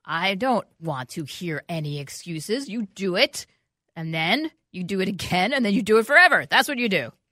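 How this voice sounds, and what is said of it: Stern, scolding mom voice. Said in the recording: “I have my extra mom voice on”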